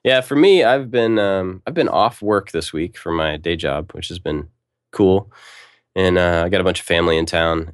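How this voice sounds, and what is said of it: Congested, nasal voice. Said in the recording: “I've been fighting this sinus infection, which you might be able to hear in my voice.”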